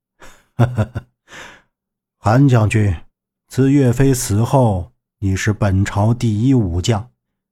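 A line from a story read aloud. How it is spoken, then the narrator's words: Laughing. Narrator (Chinese): 赵慎笑道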